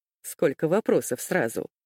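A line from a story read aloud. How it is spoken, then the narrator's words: Laughing. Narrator (Russian): засмеялся Саватов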